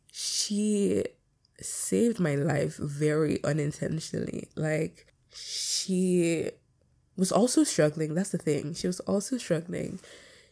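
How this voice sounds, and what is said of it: Shaky, tearful voice. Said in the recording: “Why is my eye tearing up? ... Why the fuck am I crying? ... my voice is shaky”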